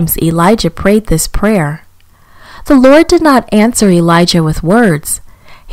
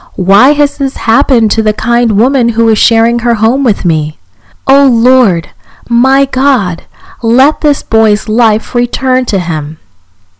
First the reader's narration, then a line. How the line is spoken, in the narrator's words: Elijah cried to the Lord